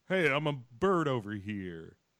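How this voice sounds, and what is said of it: Impression of Leo. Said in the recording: “that your Leo impression? ... Yeah”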